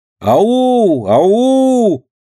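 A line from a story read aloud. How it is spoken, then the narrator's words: Calling out. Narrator (Russian): Еще раз крикнула Динка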